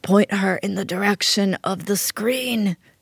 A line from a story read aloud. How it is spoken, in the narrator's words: she croaked like a dying Don Corleone